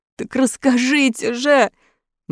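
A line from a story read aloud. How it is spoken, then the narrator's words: Mechanic pleading. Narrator (Russian): взмолился механик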